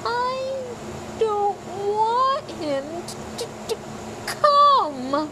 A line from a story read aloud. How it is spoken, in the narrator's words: Dudley yelled between huge pretend sobs